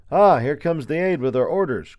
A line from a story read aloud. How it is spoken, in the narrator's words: cried one of the unseen soldiers